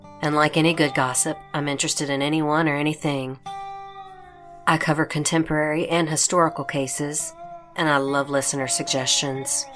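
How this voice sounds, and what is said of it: Southern US accent. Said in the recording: “she has an amazing Southern accent.”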